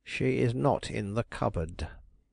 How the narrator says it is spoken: that person dryly assured me

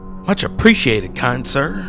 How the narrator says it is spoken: the man exclaimed

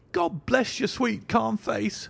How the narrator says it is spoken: she cried with an hysterical sob

